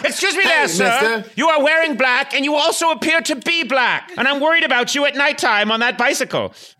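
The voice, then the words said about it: Put-on accent. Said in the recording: “Accent ... it's because of the accent”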